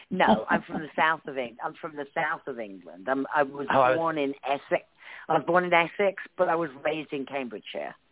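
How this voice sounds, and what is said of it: English accent, slight northern tinge. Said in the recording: “a little bit of a northern Liverpool, Manchester-esque accent”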